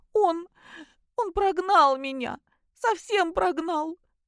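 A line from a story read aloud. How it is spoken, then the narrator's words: Breathless between sobs. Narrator (Russian): выдохнула между рыданиями Кристина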